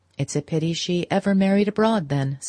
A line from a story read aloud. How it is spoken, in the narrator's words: said May, in the placid tone